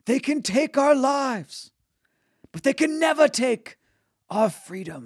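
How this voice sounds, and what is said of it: Bad shouted Mel Gibson Braveheart impression. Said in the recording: “Mel Gibson at the top of his lungs... I'm the worst at accents ever”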